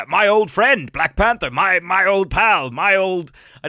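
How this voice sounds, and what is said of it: Old colonial man character voice. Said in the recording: “give him that voice, but in my head, that's what Hank Pym sounds like. He's just a really old colonial dickhead.”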